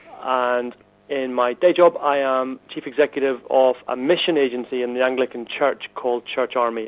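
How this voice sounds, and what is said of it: Northern Irish accent. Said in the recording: “I'm originally from Northern Ireland, which the accent might give away”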